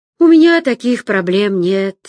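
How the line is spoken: Unexpectedly sad. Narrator (Russian): неожиданно грустно заявил Роман

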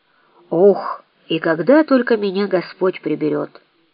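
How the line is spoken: Mutter. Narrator (Russian): пробормотала

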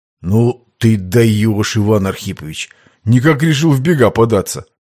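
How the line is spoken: Groaning. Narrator (Russian): произнес, простонал боец

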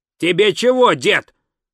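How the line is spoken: Barked. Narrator (Russian): рявкнул

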